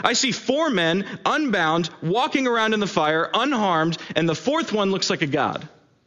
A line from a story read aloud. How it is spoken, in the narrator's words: Nebuchadnezzar shouted